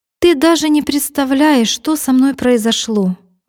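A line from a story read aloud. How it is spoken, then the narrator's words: Exclaiming. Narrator (Russian): воскликнула Милка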